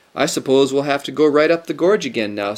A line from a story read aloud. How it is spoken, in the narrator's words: said Lucy